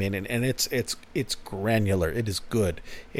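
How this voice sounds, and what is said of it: Usual voice. Nothing is said of it.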